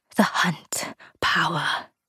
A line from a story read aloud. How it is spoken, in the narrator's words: Gran whispered